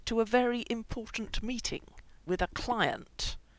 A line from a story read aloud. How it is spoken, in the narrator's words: said through gritted teeth